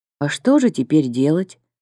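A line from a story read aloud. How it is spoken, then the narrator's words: Dejected question. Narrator (Russian): упавшим голосом спросил Никитин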